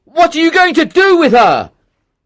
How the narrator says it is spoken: he shouted

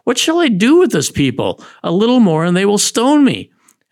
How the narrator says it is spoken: Moses cried out to the Lord

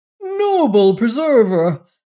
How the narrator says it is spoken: cried

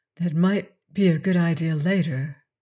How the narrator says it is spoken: Estelle said quietly

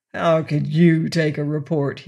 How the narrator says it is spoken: he growled

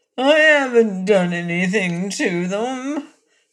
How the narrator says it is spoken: whined Calico, trembling

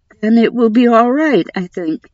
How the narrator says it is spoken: she said shakily

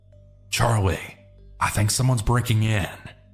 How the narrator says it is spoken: quietly whispered

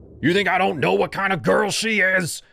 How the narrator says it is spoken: shouted

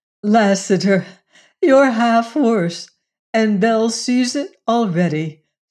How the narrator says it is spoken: said Jane, laughing

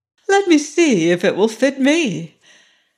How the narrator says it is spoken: Cinderella, who was looking on and admiring their efforts, said laughingly

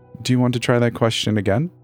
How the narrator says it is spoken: I asked

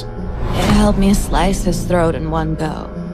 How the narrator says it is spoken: she murmured

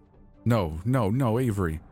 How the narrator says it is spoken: I said, my voice shaking

